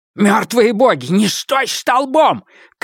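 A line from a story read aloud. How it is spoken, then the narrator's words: Shout. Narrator (Russian): крикнул мне Острый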